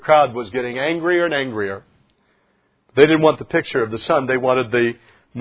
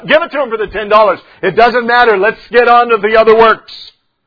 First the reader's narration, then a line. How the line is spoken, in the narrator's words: Other people shouted out